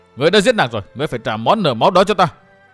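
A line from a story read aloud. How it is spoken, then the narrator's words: Continued shouting. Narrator (Vietnamese): Chàng hét tiếp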